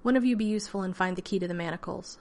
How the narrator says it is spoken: Van Ryn said sharply

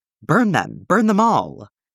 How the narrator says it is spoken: Will shouts

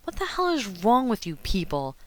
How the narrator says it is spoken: he snapped

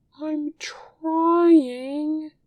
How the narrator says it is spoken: he whines, with a put-upon aura

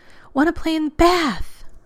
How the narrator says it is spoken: John groaned

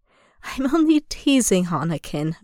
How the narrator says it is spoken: Obi-Wan chuckles warmly

